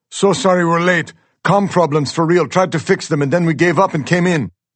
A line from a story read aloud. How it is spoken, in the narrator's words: Our pilot, Joe, yells from up front